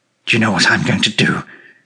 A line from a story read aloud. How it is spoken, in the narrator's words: he said in a low voice, putting his lips close to my ear